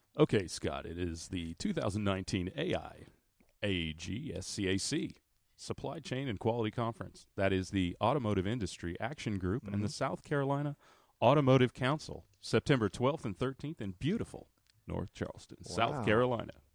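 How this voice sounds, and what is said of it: Polished announcer-style radio voice. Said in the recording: “Your best radio voice.”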